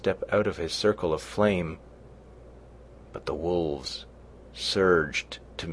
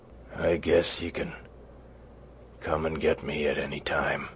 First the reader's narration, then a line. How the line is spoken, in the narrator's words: he mumbled